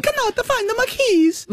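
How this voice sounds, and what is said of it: Put-on Italian nonna accent. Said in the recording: “It was not how my nonna sounded ... Nonna Cesira, rest in peace, did not sound like that. Right. But I'm happy for you to use that accent.”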